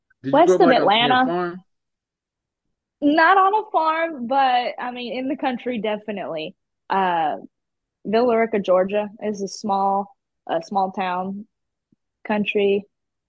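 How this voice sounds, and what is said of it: Southern US country accent. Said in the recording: “Oh, you got a country accent. ... most people can tell that I'm from somewhere else in the South”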